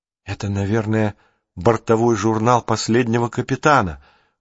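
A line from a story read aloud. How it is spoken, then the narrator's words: Whisper. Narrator (Russian): прошептала Джулия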